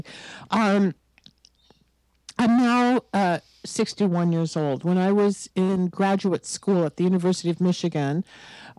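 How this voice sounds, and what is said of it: Raspy, hoarse voice. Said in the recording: “I am getting over this horrible summer virus. So my voice is a little raspy today.”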